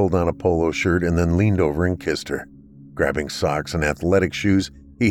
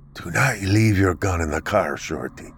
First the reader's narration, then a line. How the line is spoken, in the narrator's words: With a heavy sigh, said